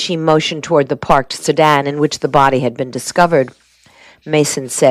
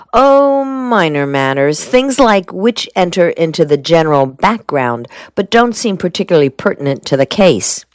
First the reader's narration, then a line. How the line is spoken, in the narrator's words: Shore asked